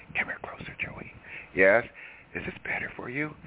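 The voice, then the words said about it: Mock whisper. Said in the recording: “I'm going to whisper to you.”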